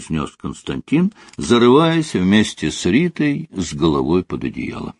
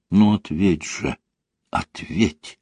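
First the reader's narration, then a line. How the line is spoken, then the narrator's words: Incantation-like whisper. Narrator (Russian): шептала она, как заклинание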